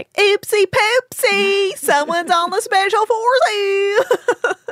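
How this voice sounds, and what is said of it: Exaggerated southern accent imitating Hannah Brown. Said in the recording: “I'm really exaggerating her voice. She does have like a southern accent, but it's not that insane.”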